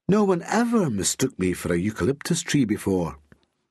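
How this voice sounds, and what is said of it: Seductive posh Glaswegian accent. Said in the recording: “in that seductively posh Glaswegian accent”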